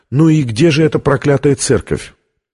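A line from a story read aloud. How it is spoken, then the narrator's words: Deep-sighing woman's question. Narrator (Russian): Витория глубоко вздохнула и спросила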